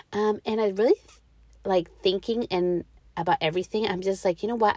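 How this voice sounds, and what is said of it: Slightly off, sick-sounding voice. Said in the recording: “my voice is a little off. I've been sick. I am taking inhalers, all kinds of yucky stuff going on right now with my throat.”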